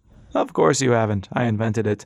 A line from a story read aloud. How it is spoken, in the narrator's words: he cackled heartily